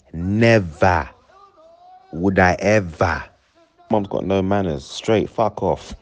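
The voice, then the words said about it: Put-on African accent. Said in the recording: “in African accent.”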